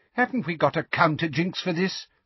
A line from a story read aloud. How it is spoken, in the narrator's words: Fudge asked Umbridge impatiently